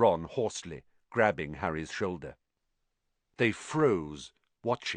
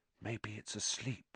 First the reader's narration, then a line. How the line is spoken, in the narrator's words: he breathed